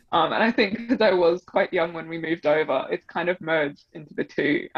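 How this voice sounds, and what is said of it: Mixed English and Australian accent. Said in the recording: “my English friends, they say I sound Australian. I talk to my Australian friends, they say I sound English... that Kylie Minogue accent. Her accent is just kind of nothing. You just kind of can't tell.”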